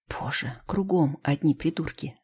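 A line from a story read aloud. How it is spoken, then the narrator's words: Hissing through teeth. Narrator (Russian): ставлено шипит сквозь зубы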